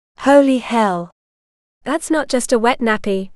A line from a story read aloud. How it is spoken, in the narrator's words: Jessa said flatly